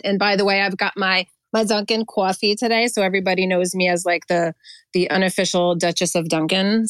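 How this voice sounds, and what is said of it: New Jersey accent. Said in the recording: “I'm a native New Jerseyan, if you couldn't tell by my accent.”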